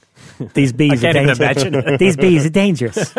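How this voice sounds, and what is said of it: Michael Caine impression. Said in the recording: “Michael Caine doing his best to convince you ... does a good impersonation”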